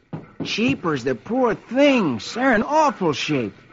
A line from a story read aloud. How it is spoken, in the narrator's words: Rusty comes into the barn, takes one look at the horses, and exclaims